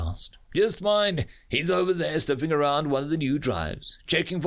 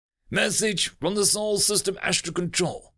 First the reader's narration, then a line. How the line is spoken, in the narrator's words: Ulamonti barked out